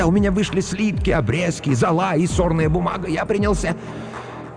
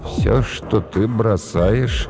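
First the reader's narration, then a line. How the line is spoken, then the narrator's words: Weak voice. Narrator (Russian): сказал слабым голосом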